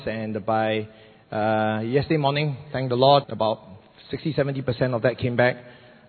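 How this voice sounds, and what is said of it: Raspy, partly lost voice. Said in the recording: “my voice is a little bit raspy. ... I suddenly lost my voice”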